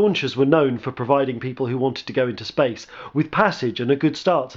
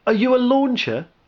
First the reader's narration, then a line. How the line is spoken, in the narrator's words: asked excitedly